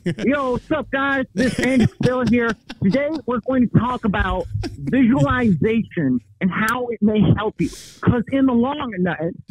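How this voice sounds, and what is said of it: Imitates another person's voice. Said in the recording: “do an Andy Priscilla impression ... Yeah, you're dead on. You're dead on. That's Andy.”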